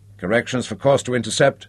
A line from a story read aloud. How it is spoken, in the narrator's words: he asked